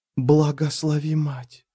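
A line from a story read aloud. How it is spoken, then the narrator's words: Whisper. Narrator (Russian): прошептала Кедевис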